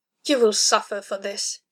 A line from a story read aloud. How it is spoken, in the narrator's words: snarled, teetering on the knife edge of control